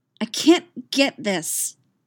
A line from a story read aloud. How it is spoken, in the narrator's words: she snapped